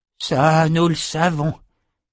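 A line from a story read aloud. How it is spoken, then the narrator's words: Sighed. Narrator (French): soupira Zed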